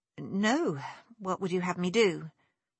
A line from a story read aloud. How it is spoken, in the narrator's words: She quelled a sigh now, and replied to her sister